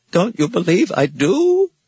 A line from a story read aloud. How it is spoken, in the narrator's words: Billings cried